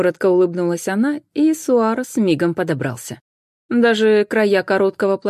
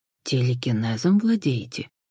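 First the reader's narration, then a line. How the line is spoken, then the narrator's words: Impulsive whisper. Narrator (Russian): не выдержав шепотом, уточнил Хосе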